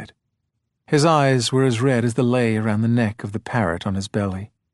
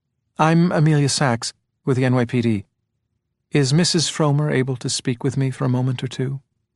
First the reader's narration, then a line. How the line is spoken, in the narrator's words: She said this kindly, her voice cleansed of officialdom